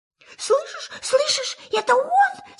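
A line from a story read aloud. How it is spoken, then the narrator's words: Frightened. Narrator (Russian): сказал Пятачок испуганно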